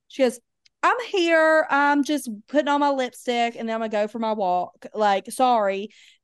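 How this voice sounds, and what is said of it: Imitates another person's accent. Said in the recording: “you have to do her accent.”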